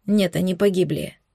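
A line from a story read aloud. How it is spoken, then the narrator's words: Dull, muffled answer. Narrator (Russian): глухо ответил я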